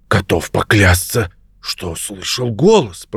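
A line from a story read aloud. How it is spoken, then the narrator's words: Whisper. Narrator (Russian): прошептал он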